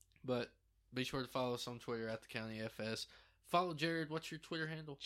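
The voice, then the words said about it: Southern country American accent. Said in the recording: “we sound country, real country ... Especially me ... thought we were from Texas ... Texan accent”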